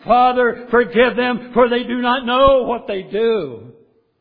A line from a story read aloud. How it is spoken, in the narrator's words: He cries out